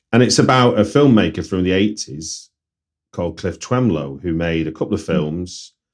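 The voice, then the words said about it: Manchester English accent. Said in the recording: “you may have guessed from accent, I'm from Manchester”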